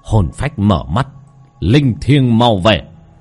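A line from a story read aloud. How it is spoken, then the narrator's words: Shouted incantation. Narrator (Vietnamese): miệng quát lên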